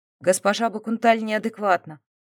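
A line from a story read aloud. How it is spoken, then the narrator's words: Plain. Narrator (Russian): ответил сайлирский кронпринц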